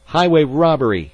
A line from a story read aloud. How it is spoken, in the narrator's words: Kippy yelled